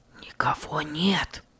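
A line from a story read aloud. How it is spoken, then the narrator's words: Hoarse whisper. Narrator (Russian): прошептал он хрипло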